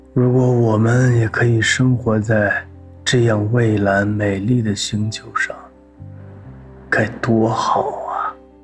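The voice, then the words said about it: Soft, quiet, wistful voice. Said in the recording (Chinese): “无比羡慕的小声说”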